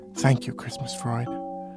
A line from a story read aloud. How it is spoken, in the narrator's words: people snifflingly and meaningfully whispering